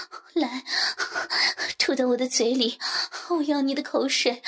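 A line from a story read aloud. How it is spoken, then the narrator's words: Panting. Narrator (Chinese): 喘息着说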